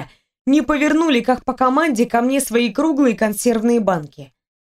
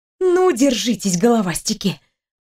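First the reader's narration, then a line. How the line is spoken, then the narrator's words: Muttering through clenched teeth. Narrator (Russian): пробормотала я сквозь зубы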